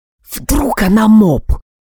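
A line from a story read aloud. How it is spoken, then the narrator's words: Hissing into ear. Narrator (Russian): прошипел я над ухом у Алекса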